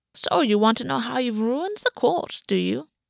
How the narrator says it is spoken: Gulvi said, her voice rich and filled with self-satisfaction

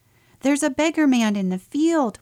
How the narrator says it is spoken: we cried

